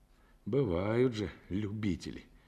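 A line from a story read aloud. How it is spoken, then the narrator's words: Quiet surprise. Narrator (Russian): тихо удивился Мазепчиков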